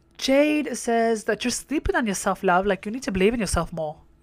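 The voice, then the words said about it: Put-on English accent. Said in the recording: “I hit that English accent ... English people are going to be like, no, you didn't”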